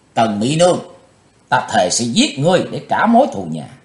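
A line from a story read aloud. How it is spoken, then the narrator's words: Loud vengeful shout. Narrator (Vietnamese): chàng quát lớn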